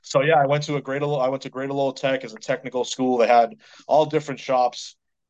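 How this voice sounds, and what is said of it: Boston accent. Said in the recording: “I'm a Boston native... I'm going to have to come at you with the Boston accent too”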